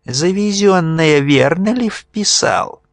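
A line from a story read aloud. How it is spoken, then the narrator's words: Thin-voiced question. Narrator (Russian): низкорослый боярин тонким голосом спрашивал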